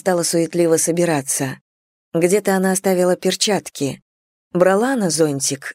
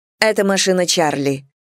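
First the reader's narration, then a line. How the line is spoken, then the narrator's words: Sharp retort. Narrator (Russian): довольно резко парировала Китти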